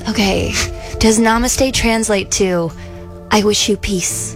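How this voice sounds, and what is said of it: Calm, soothing yogi-style voice. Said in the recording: “going to put on my best yogi voice.”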